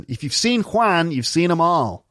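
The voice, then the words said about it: Put-on American accent. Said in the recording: “Maybe this joke only works in an American accent.”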